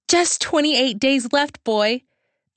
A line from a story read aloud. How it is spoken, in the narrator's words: I yelled louder to get him excited